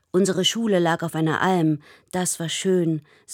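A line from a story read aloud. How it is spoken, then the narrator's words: Sighing. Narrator (German): seufzt Michi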